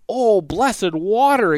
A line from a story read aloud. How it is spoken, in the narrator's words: exclaimed Midas